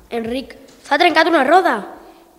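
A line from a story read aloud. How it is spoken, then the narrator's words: Prince shouting. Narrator (Catalan): El príncep va cridar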